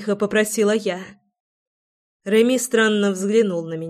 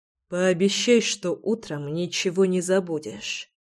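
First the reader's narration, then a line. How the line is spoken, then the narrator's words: Hoarse mutter. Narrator (Russian): хрипло пробормотал Реми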